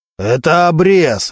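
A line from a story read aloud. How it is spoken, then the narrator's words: Barked. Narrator (Russian): рявкнул Мантуленко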